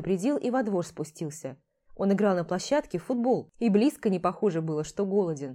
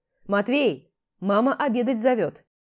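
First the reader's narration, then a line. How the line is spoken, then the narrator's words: Shouting. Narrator (Russian): крикнул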